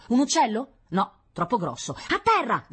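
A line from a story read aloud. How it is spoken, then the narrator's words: Shouting. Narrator (Italian): gridò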